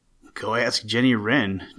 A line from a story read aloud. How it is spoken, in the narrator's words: chuckled Winsome Bluebird